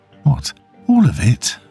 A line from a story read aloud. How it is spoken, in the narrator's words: she asked, her voice strained